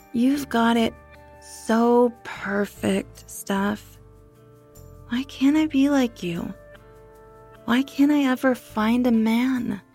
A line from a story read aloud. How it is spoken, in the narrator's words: she slurred as she downed another drink